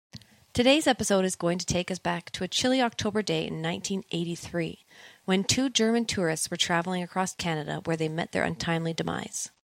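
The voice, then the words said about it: Radio announcer voice. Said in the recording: “let me slip into my radio voice”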